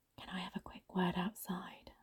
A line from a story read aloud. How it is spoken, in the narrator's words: I whispered to her